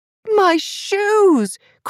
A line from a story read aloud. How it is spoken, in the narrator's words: cried the blonde woman